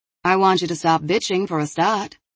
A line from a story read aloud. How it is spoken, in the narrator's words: Zoe said sharply